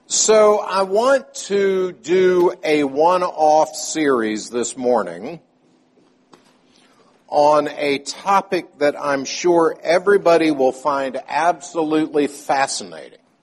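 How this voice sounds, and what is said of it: Sarcastic tone. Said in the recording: “I say that sarcastically.”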